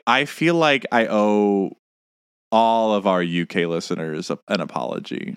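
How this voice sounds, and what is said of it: Usual voice. Nothing is said of it.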